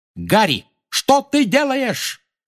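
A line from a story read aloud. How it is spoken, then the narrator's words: Shouting. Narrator (Russian): крикнула Анжелина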